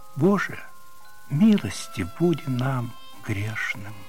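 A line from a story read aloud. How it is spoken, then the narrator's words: Guilty whisper. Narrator (Russian): Наденька виновато прошептала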